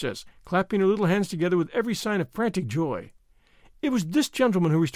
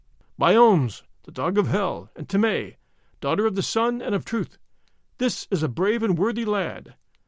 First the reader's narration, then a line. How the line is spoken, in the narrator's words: exclaimed Pharaoh